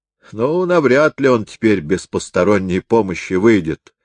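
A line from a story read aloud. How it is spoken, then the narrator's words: Plain. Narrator (Russian): сказал Хаттерайк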